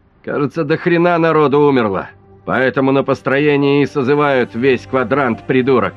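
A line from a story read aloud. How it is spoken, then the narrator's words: Shouting. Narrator (Russian): крикнул Гарик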